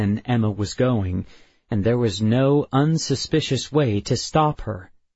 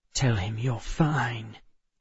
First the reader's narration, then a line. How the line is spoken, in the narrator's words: Emma said, her voice low and flinty